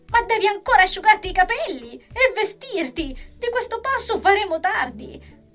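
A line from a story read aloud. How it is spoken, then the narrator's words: Exclaiming. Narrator (Italian): Giulia aveva esclamato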